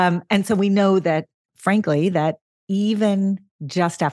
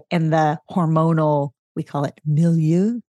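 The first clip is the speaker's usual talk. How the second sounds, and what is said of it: French-accented pronunciation of one word. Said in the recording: “It's our very French way of saying ... Such a good accent.”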